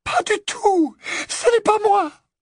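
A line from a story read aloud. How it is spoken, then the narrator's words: Terrified squeak. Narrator (French): Le couinement terrifié d'Hermione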